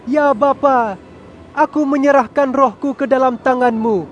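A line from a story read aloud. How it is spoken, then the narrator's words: Strong loud cry. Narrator (Indonesian): Yesus berseru dengan kuat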